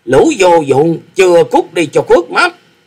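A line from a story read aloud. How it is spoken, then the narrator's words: Loud angry shout, old man. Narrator (Vietnamese): Lão già áo xanh chính là Tử Vong cốc chủ Phạm Long, quát rồi quát lớn nói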